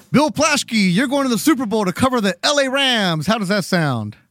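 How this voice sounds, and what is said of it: TV news reporter voice. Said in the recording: “my bad TV reporter impression”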